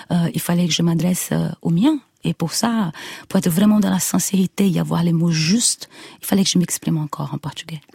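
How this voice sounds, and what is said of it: Brazilian accent speaking French. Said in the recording (French): “Dans votre voix aussi. ... Dans votre accent. ... Dans mon accent.”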